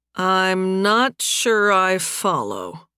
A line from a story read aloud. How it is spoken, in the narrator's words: Nathan said slowly